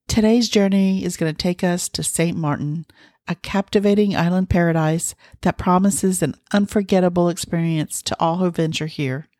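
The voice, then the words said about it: Scratchy voice from a cold. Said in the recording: “I'm suffering from a little head cold today, so my voice might be scratchy”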